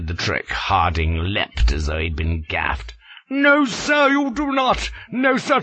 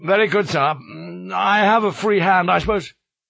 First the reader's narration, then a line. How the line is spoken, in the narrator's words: made a lip, thoughtful-like, choked down my supper, and said straight out